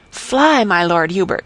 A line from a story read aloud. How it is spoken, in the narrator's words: he cried